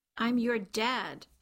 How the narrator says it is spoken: Charlie snapped at Taya

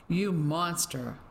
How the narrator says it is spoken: She spat out the words

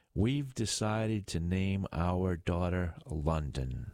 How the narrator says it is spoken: she said

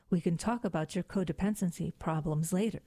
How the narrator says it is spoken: said the prince

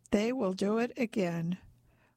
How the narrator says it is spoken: says evenly

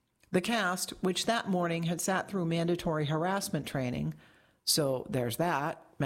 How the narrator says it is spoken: Metcalf said flatly

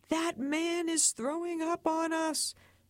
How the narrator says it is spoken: People around him started screaming

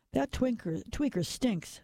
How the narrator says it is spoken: someone said

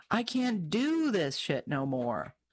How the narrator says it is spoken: One driver, visibly shaking after having narrowly avoided a bullet, screamed

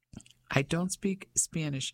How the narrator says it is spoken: Ellie said

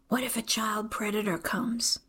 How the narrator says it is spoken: She leans closer and whispers

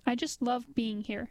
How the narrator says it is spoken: he said later

